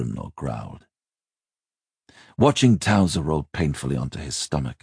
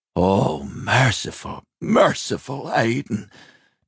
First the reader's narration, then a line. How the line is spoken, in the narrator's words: Towser groaned